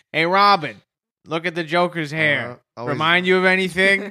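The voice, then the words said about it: Howard Stern impression. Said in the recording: “always doing his Howard Stern impression.”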